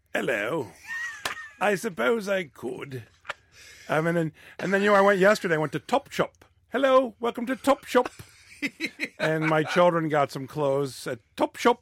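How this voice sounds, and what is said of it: Put-on British accent. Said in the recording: “Can you do a British accent? ... It's kind of a mix between Dick Van Dyke and Prince Charles you've got going on there.”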